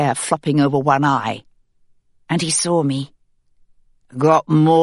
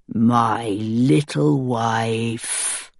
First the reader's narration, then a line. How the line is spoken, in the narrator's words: he said, his voice sharpening for a moment